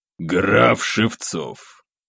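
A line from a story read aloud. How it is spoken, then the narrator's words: Hesitant forced words. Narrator (Russian): После задержки все же выдавил Николай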